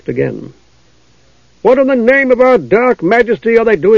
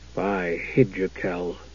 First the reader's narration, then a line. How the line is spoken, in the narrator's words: said in a low voice